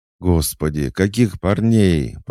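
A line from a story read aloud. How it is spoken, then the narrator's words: Moaning. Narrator (Russian): простонала Аля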